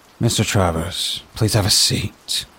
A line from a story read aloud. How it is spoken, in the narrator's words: Hannah said, her tone cordial but guarded